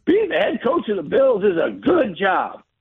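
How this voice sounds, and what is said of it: Southern accent imitating Buddy Nix. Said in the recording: “Buddy Nix ... with that Southern accent”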